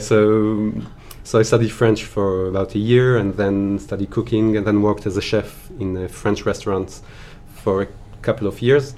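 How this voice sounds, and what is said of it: French accent. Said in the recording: “you have such a French accent.”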